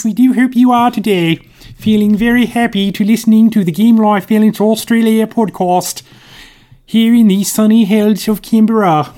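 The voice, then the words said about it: Dodgy queenly voice, sounds New Zealand. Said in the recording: “my really dodgy impression of the Queen ... the vaguest of vague impressions ... doing an impression of a New Zealander ... It sounds like someone from New Zealand”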